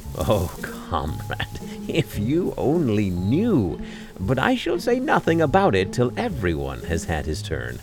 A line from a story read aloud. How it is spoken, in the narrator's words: he answered gaily